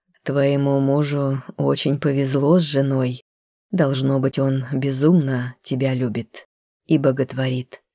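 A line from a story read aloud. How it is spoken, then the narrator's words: Soft, slightly sad. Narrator (Russian): немного грустно, мягко сказал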